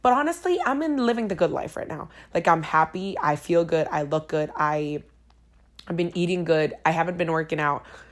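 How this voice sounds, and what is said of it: Hurried, very fast speech. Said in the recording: “I'm sorry if I sound hurried up. ... I feel like I'm talking really fast.”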